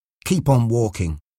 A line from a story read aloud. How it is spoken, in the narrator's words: she said to Mark quietly